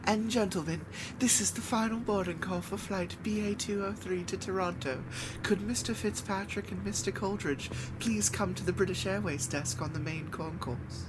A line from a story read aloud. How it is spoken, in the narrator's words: a woman in a thick English accent announcing